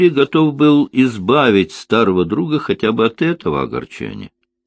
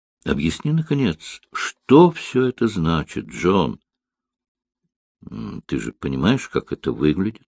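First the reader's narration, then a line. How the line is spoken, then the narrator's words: Gentle request. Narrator (Russian): Линли мягко попросил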